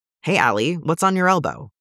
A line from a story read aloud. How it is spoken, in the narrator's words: asks